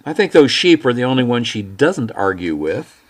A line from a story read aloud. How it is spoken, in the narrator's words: she said